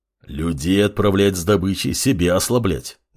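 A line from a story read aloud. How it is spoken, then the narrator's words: Displeased wolf grumbling. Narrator (Russian): недовольно заворчал волк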